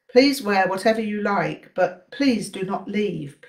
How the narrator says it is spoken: pleaded the Gyalpo

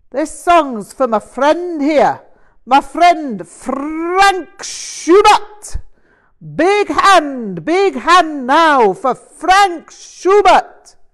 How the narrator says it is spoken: John Martin bellowed

